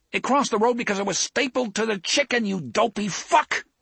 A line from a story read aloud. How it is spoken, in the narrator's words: Eddie yelled